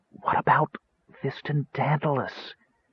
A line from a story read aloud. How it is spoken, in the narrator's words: Tass whispered dramatically